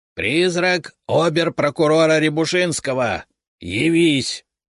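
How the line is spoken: Loud, commanding. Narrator (Russian): громко и властно произнес Леонид Францевич

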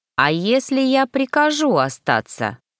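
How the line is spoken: Mocking snort. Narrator (Russian): хмыкнул дракон

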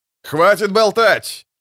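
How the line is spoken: Male shout. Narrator (Russian): выкрикнул мужской голос

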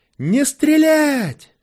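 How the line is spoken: Yelling in strange voice. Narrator (Russian): не своим голосом заорал Паша

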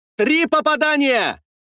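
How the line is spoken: Excited shout. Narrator (Russian): закричал Щеголев, аж подпрыгнув на месте

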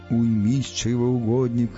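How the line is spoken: Hollow sepulchral voice. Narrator (Russian): за могильным голосом отозвался Стас

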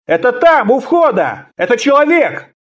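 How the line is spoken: Soldiers shouting from ranks. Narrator (Russian): из передних рядов центурии закричали

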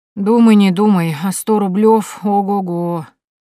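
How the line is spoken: Sighing boy. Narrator (Russian): вздохнул мальчишка

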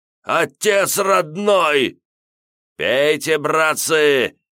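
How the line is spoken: Frantic screaming. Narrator (Russian): истошно заорал плюгавенький бандит по кличке Дохлый

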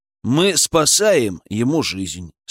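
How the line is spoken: Calm. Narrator (Russian): спокойно ответил я

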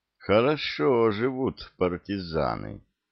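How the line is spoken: Drawn out, ambiguous tone. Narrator (Russian): с непонятной интонацией протянул лейтенант

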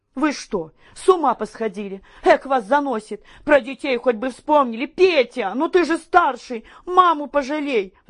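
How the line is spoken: Desperate pleading. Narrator (Russian): взмолилась Еленка

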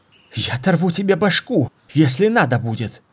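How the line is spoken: Fearful shout. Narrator (Russian): крикнула Мара, но в голосе читался не столько гнев, сколько страх

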